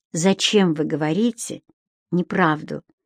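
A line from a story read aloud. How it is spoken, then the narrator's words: Gentle tone. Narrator (Russian): мягко сказала Геонея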